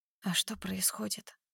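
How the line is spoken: Barely audible whisper. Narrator (Russian): шепчу едва слышно

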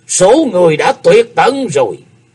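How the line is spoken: Hateful demonic roar. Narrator (Vietnamese): Hải Ma giáo chủ không dằn được cơn máu hận, gầm lên như loài quỷ độc ngoài trang mộ

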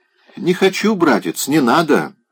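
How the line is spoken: Ironic, then laughing. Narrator (Russian): начала она с иронией повторять и засмеялась

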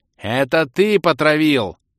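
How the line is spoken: Furious shout. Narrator (Russian): Яростно выкрикнул Хантин

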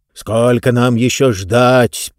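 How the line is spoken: Roaring voice. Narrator (Russian): проревел один голос

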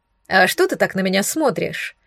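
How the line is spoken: Snorted. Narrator (Russian): фыркнула

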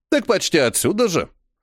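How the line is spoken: Snorting old man. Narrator (Russian): хмыкнул старичок

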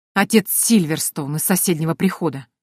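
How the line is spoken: Angry, through gritted teeth. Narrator (Russian): зло процедил Рон

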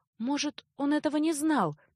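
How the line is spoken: Uncertain girl's suggestion. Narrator (Russian): неуверенно предположила девушка

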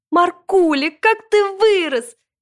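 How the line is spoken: Grandmother shouting. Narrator (Russian): закричала бабушка Мила

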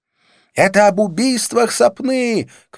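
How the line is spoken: Shouted into ear. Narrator (Russian): крикнула Розанна, приблизив рот к моему уху

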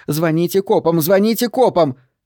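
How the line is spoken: Screaming waitress. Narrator (Russian): Вторая официантка вопила

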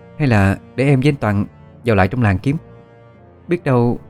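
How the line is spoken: Hesitant voice. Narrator (Vietnamese): Ân nói với giọng ngập ngừng

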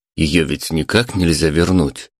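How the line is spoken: Plain. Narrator (Russian): спросил Леша

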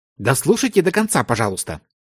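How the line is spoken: Cold, smiling. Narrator (Russian): холодно улыбнулась Лаура

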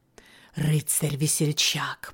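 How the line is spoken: Little man whispering. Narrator (Russian): прошептал человечек

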